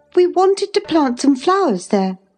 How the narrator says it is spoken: she cried

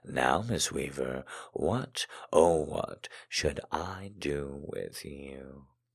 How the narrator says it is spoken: I murmured

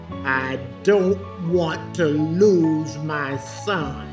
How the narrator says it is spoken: She said, very confidently and sternly

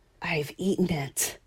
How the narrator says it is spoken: breathed

